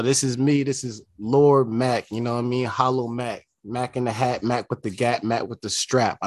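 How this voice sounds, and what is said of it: Californian accent. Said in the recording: “my Cali accent”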